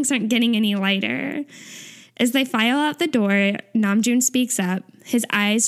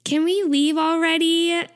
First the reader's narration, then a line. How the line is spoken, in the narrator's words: Taeyong whines